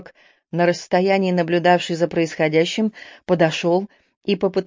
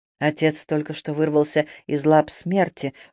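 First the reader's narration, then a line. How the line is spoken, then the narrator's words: Undertone. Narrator (Russian): вполголоса заметил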